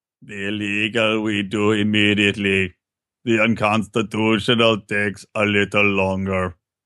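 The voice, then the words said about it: Imitates another person's voice. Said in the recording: “going to do a Kissinger voice?... Your Kissinger sounds like, who's the fake Arnold Schwarzenegger from The Simpsons?”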